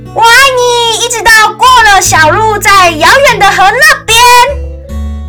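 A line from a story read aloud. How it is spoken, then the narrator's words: Shouting. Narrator (Chinese): 小兔子大叫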